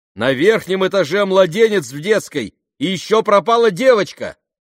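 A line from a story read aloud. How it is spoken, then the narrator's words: Shout. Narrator (Russian): крикнул ему Бен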